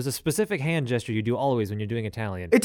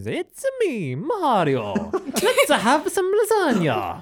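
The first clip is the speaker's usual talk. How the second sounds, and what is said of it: Mario-style Italian accent. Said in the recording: “The only words I could do in Italian is”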